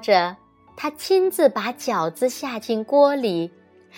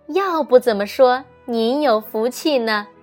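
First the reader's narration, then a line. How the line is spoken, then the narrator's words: Smiling mother, cheerful. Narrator (Chinese): 妈妈的眼睛笑得眯成了一条缝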